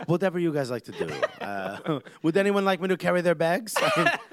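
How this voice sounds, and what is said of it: Put-on French accent. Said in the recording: “I don't know why I have this French accent”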